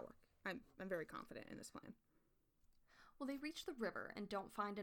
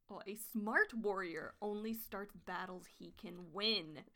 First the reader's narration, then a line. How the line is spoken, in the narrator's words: she hisses